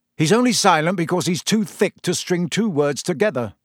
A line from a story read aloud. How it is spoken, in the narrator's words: said Fred impatiently